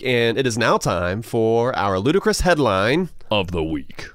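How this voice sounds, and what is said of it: Deep movie trailer announcer voice. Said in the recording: “my movie announcer voice ... Nice and deep.”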